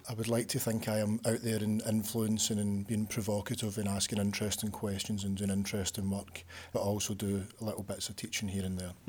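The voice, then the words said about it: Glaswegian Scottish accent. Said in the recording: “your accent gives it away that you're not from Leeds originally ... So I'm from Glasgow”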